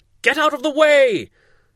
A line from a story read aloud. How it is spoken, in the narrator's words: shouted the officers